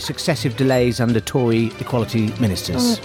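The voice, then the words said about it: Flat robotic monotone delivery. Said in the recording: “Why are you talking like a robot there?”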